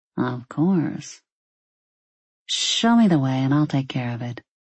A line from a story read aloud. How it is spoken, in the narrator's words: she said